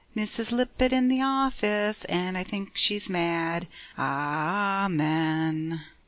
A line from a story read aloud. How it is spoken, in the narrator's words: Tommy piously intoned, but his accent was not entirely malicious